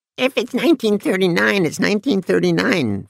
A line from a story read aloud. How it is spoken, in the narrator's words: Fred Zafke said in a squeaky, high-pitched voice